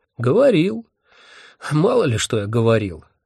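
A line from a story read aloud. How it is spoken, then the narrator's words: Sighing. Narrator (Russian): вздохнул Вурундшундба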